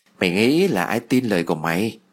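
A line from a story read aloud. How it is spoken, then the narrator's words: Faint eerie smile. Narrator (Vietnamese): Duyên khẽ mỉm cười, nụ cười đầy ma mị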